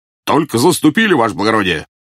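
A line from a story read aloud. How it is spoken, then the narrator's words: Loud barked report. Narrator (Russian): гаркнул старший по караулу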